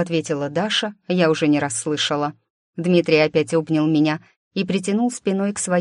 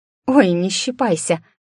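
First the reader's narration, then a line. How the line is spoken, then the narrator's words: Squeak. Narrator (Russian): пропищала я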